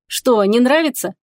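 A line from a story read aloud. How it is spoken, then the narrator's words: Mocking. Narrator (Russian): насмешливо сказала она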